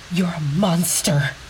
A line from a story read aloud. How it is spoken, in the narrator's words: she spat at him